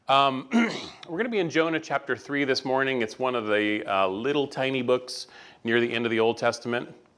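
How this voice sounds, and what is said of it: Hoarse voice from a cold. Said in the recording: “I am getting over a little bit of a cold. ... My voice is fighting back a little bit”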